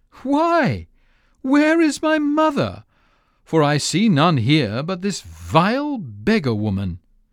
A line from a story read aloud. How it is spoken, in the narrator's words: he laughed scornfully and said